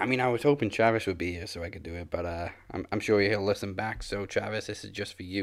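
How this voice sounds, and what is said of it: Usual voice. Nothing is said of it.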